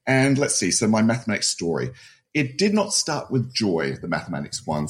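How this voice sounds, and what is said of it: Australian accent. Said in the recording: “I probably have an accent ... I'm not from North America. I'm not from the US ... grew up in Adelaide, Australia”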